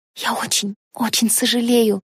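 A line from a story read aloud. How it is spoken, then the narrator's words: Halting whisper. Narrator (Russian): прошептала Кэтлин сбивчиво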